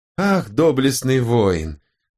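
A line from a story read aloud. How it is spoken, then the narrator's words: Sighing. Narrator (Russian): вздохнул лжеорант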